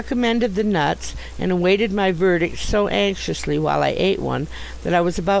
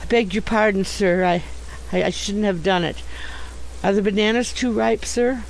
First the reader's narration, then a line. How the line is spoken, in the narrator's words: answered shakily